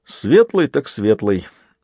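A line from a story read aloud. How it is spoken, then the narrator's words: Laughing. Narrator (Russian): засмеялся Дунк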